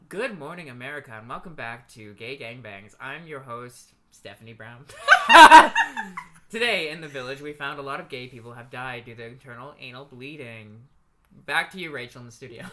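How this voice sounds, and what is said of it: Radio newscaster voice. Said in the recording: “your best impression of a newscaster, like somebody on the radio”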